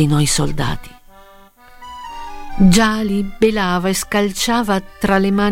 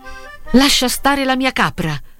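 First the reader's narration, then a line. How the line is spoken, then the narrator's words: Exclaiming. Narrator (Italian): esclamai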